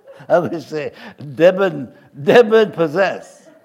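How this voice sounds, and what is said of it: Put-on French accent. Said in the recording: “That's my French accent is coming out.”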